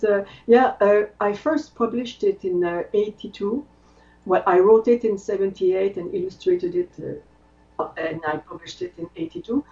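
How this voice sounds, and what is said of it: French Canadian accent. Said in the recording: “I come from the French part of Canada, in Quebec, as the accent will tell you.”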